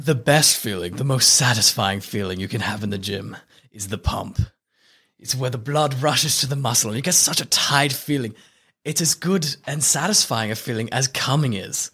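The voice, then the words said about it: Put-on random accent. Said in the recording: “I don't have a good Arnold Schwarzenegger accent, so we're just going to put on a random accent.”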